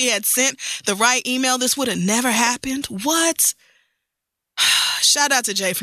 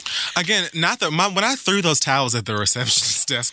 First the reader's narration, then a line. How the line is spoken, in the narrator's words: my mama laughed